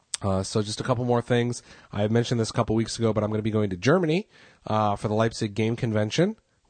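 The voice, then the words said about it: Tired, strained voice. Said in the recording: “I'm weighing in on almost an hour here, and my voice is barely holding up.”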